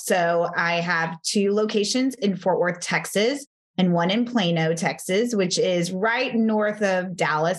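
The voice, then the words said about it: Slight Texan Southern accent. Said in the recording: “I'm from Texas. I'm sure you'll hear a y'all and a, little bit of an accent.”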